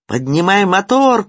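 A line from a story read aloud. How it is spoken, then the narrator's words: Shouting over roaring water. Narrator (Russian): крикнул, пытаясь перекрыть голосом все нарастающий гул, несущийся на камне воды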